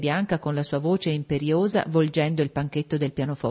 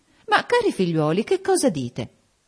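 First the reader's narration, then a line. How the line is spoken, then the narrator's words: Exclamation. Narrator (Italian): esclamò Lady Lynn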